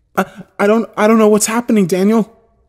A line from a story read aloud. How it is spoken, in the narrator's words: she said desperately